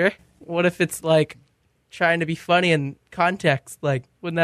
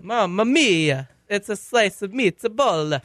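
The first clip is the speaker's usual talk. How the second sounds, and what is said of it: Put-on Italian accent. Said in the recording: “I don't really have a good Italian accent. ... It's an accent. ... talking like an Italian”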